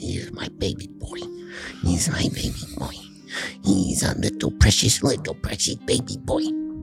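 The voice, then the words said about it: Whispering softly. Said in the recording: “and I'm whispering,”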